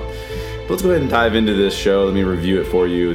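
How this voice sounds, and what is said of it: Congested, stuffy voice. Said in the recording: “I do have a cold, as you can probably hear from my voice”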